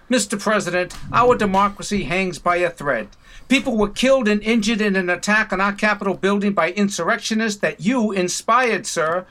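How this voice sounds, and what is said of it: Boston accent. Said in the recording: “with the Boston accent”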